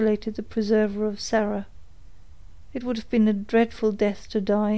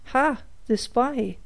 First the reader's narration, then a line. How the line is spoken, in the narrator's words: he exclaimed